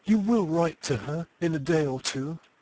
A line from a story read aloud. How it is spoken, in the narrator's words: said the young woman earnestly